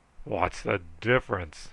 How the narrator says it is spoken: he snarled

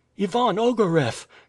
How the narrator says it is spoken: she cried

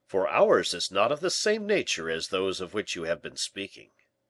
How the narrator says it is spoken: replied the bishop in a firm, assured voice

